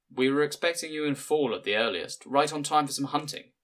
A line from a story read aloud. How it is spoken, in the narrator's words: he said